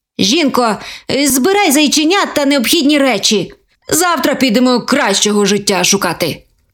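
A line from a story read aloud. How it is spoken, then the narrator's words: Grumbling. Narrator (Ukrainian): Буркнув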